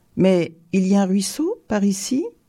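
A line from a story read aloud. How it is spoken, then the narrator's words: Plain question. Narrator (French): demanda Tourba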